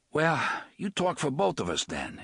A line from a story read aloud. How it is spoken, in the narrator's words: Eddie panted